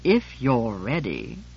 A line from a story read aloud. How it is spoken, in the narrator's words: I said coldly